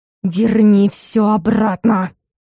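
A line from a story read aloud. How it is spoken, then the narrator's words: Indignant hoarse rasp. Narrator (Russian): негодующе хрипела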